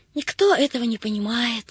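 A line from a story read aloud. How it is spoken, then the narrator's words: Sighing. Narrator (Russian): вздохнула Агата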